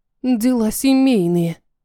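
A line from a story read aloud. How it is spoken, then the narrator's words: Grumble. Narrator (Russian): буркнула я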